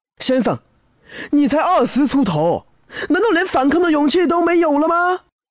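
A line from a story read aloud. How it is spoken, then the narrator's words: Sudden shout, young man. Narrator (Chinese): 年轻人突然喊了一句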